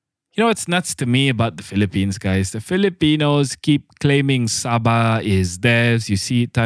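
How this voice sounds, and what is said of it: Usual voice. Nothing is said of it.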